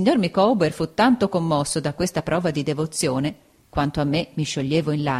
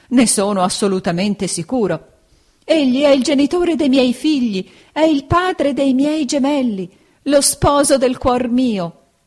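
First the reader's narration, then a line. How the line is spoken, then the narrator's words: Exclaiming while struggling. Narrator (Italian): esclamava la signora Micawber divincolandosi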